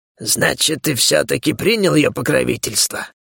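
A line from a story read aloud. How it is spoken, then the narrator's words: Angry hiss. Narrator (Russian): Зло прошипел он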